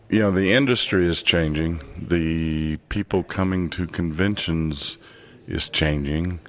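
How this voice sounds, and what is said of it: Smooth radio-style voice. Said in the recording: “You have the radio voice for it... You have a great radio voice.”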